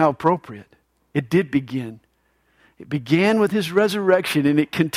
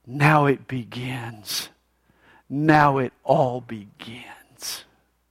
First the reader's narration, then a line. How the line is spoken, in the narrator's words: he whispers to himself